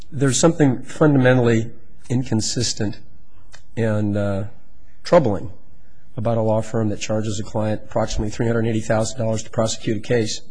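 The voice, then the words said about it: Voice affected by a cold. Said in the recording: “apologize for my voice. I'm getting over a cold.”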